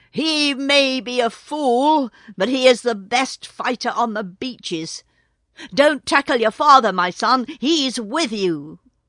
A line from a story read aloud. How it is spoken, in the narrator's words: Sea Catch gave one roar and shouted